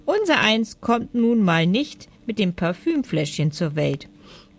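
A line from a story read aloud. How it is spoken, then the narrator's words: Calm. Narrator (German): sagte der Stinkmorchel ruhig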